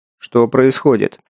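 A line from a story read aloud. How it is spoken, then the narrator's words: Stern question. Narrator (Russian): строго спросил Сухов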